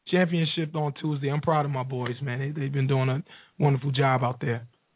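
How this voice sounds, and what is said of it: Hoarse, strained voice. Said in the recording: “the losing every voice is worth it then ... yell and scream and lose my voice.”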